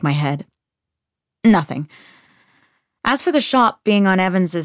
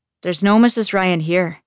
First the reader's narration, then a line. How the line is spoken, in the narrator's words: the woman says in a thick Irish accent